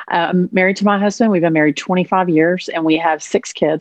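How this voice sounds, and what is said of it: Texan Southern American accent. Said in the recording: “I grew up in Texas, so six generations back. So I'm really authentic... the twang is real”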